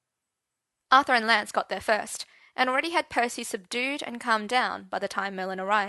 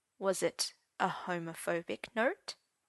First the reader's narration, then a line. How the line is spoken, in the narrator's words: said Gaius softly